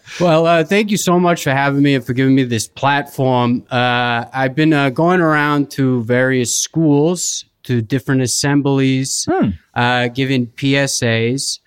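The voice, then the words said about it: Non-rhotic northeastern US accent. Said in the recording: “I am from an area in the northeastern United States where we do speak with a non-rhotic accent ... we drop the R's at the end unless they precede a vowel”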